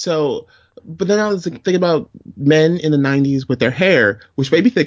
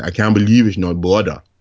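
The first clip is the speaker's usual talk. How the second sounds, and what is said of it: Imitates another person's accent. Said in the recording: “you have to say it with Fabio's accent.”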